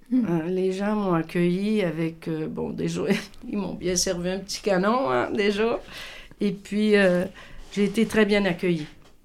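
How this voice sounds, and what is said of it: Québécois French accent. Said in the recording (French): “on est Québécois ... ils adorent mon accent”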